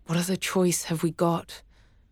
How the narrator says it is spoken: Travis whispered

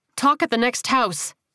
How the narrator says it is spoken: she barked

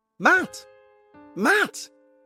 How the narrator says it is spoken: she yelled again

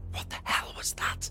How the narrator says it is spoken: Danny whispered, shocked

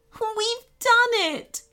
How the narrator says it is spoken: cried the woman, wiping happy tears from her cheeks

